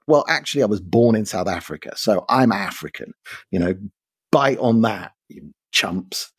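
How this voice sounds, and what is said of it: London English accent. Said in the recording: “My accent is London”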